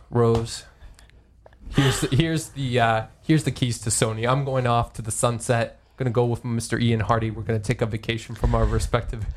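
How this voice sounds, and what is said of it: Put-on Brooklyn accent. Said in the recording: “I don't know why Kaz has a Brooklyn accent, but I've decided he does.”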